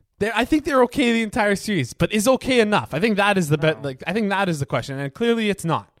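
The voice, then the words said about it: Loud, yelling voice. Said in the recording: “I'm being a little loud now. I'm yelling.”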